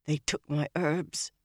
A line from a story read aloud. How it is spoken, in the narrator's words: Nynaeve muttered fiercely, her voice trembling